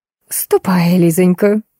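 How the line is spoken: Sickeningly sweet request. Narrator (Russian): до противности ласково попросила англичанка

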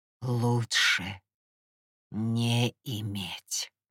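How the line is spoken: Deep strange muttered voice. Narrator (Russian): себе под нос повторил Гипнос глубоким, чужим голосом

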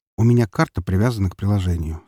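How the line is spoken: Calm reply. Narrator (Russian): спокойно ответил

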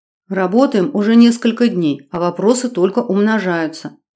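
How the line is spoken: Muttered whisper. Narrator (Russian): прошептала я себе под нос

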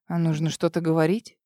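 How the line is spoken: Quiet. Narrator (Russian): Тихо выдал он

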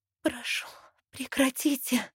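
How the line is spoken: Weak pleading, hoarse whisper. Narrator (Russian): Слабым голосом умоляю, и он срывается на хриплый шепот

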